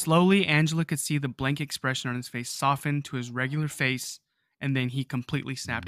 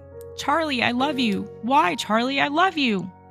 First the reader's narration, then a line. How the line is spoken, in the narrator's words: crying and screaming